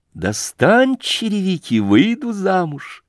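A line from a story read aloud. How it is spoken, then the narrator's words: Laughing. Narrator (Russian): засмеявшись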